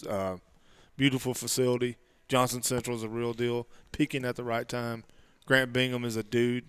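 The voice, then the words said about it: Strong regional accent. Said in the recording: “you sound like you had a great time in the mountains... My accent's probably worser than it was before.”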